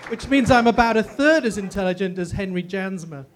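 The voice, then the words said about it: English accent. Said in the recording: “I have an English accent, which means I sound 50% more intelligent than I really am”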